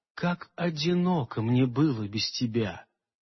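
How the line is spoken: Quiet. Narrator (Russian): тихо сказала она

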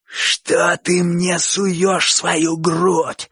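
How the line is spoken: Terrible hoarse wheeze. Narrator (Russian): страшным голосом захрипел Боча

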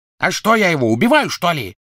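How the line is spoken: Barked. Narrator (Russian): рявкнул Крэб

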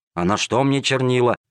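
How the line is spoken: Grumbling. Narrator (Russian): ворчал незадачливый проситель

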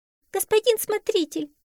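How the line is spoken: Squeaky. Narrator (Russian): пищала Балонга

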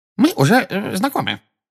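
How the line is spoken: Excited squeak. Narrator (Russian): пропищал чуть что приходящий в волнение Дингл

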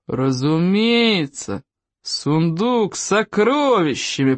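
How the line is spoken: Booming. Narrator (Russian): прогудел Стойк

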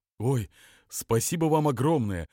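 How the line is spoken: Joyful, smiling. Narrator (Russian): радостно улыбнулся Безюка

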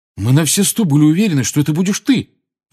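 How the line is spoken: Aggrieved, betrayed exclamation. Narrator (Russian): воскликнул Фред таким тоном, словно Гарри в чем-то его обманул

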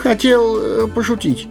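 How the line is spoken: Timid babble. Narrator (Russian): пролепетал он

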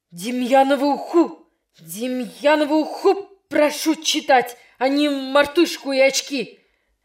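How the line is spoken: Teacher shouting, strained voice. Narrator (Russian): закричал не своим голосом учитель

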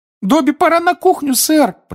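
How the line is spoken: Squeaky. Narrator (Russian): пропищал Добби

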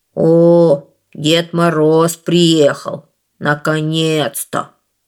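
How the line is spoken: Grumbling big bear. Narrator (Russian): пробурчал большой белый медведь

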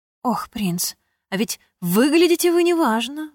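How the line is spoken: Exclamation. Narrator (Russian): воскликнула она

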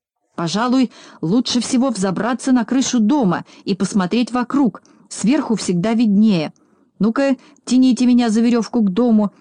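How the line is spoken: Shouting. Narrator (Russian): закричал Знайка

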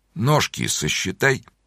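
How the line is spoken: Quiet. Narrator (Russian): тихо сказал он

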